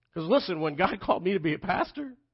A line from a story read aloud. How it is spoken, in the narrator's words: I laughed